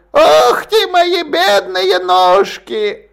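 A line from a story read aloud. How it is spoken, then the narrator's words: Earwig squealing. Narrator (Russian): в разных вариантах уховертного визга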